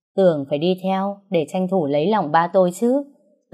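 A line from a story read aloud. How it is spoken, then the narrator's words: Heavily sarcastic tone. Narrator (Vietnamese): nói với giọng hết sức mỉa mai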